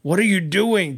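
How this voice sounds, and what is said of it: Stern angry dad voice. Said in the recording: “in my mad dad voice”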